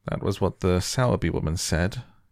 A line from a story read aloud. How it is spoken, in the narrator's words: he muttered absent-mindedly